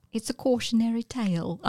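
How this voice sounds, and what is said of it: Attempted Tilda Swinton English accent. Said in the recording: “I don't think I did that accent very well... I was trying to do Tilda Swinton's English accent.”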